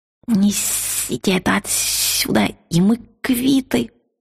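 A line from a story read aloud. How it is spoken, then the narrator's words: Weak hiss. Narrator (Russian): слабым голосом прошипел дракон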